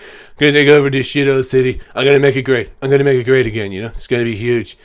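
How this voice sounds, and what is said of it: Mediocre Donald Trump impression. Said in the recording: “That wasn't a great Trump impression ... I used to be better at impressions. I used to be able to do Trump a lot better too.”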